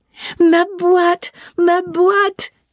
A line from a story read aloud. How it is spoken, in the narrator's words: exclaimed